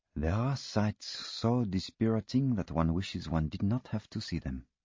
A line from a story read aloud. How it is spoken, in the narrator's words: he said quietly